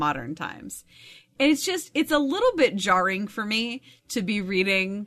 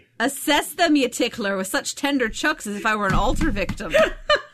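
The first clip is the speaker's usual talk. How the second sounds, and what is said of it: Weak put-on Scottish accent. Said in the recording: “my not very good Scottish accent ... I have heard worse Scotch.”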